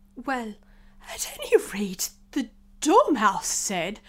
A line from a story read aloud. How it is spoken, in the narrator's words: the Hatter went on, looking anxiously round